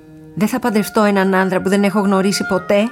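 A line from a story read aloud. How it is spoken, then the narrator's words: Shouted. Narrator (Greek): φώναξε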